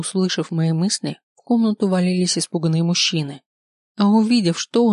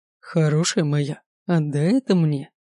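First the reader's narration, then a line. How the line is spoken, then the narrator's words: Tender. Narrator (Russian): нежно говорил Дерек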